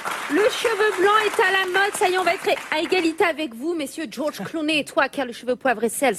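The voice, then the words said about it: Speaks in a put-on accent. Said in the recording (French): “je sais pas pourquoi je prends cet accent.”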